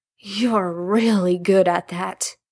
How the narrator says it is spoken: Jared moaned, although the moan wasn't one of pleasure so much as drowsy contentment

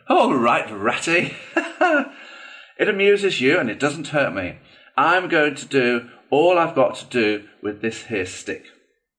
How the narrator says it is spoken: The badger laughed good-humouredly and said

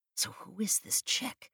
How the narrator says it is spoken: I whispered to Michaels

